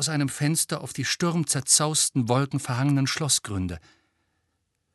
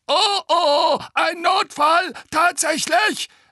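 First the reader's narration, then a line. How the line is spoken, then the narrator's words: Shrill voice. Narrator (German): sagte der andere Wasserspeier mit schriller Stimme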